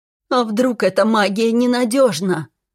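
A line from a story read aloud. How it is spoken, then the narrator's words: Tearful whining tone. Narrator (Russian): действовал на нервы своим слезливым тоном Кейлор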